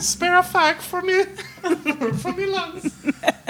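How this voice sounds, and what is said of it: Put-on British accent. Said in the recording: “That's our British accent, people.”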